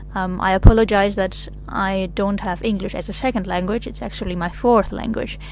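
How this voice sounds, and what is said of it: Non-native English, American-sounding accent. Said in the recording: “she has a United States accent rather than a British accent ... the funny sounding of my accent”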